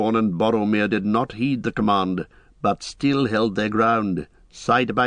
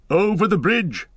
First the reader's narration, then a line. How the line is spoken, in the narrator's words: cried Gandalf, recalling his strength